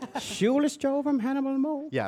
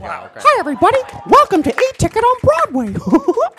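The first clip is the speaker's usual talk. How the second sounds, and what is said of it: Mickey Mouse impression. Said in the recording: “impersonation of Mickey Mouse”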